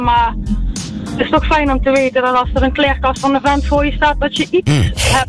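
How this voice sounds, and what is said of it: Southern Dutch regional accent. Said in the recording (Dutch): “ik bespeurde al een accent, dus daar in het zuiden”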